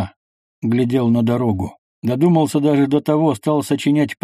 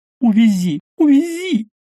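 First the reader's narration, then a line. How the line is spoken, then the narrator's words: Loud startled cry. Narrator (Russian): Усатый Малаховский громко вскрикнул, увидя Волкова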